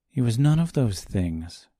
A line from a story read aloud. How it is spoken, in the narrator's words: replied calmly